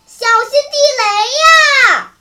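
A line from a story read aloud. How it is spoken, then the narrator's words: Startled cry. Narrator (Chinese): 一个鬼子兵惊叫一声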